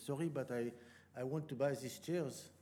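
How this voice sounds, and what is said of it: Imitated French accent. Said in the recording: “he said in a French accent”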